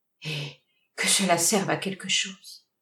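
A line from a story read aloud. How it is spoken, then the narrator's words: Sighing. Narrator (French): Elle ajouta en soupirant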